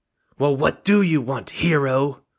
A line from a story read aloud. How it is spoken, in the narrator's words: She snaps, her voice hoarse and strained